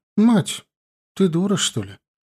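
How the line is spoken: Unexpectedly calm question. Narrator (Russian): Неожиданно спокойно даже для себя самой спросила ее Галия

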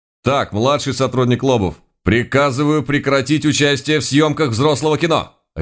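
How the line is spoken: Barked. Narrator (Russian): рявкнул я

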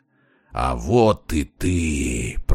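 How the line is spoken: Growled. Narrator (Russian): прорычал он

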